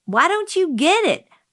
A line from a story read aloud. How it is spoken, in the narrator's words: I screamed